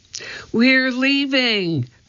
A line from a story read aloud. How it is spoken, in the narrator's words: cried Annie